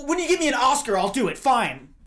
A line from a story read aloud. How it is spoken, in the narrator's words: In her panic, she just yells